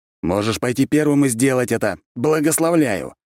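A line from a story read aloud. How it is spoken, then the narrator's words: Barked. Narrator (Russian): рявкнул я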